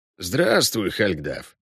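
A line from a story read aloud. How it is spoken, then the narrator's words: Creaky voice. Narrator (Russian): проскрипел Весемир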